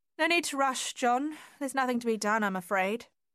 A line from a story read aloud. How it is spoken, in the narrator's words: she called out to him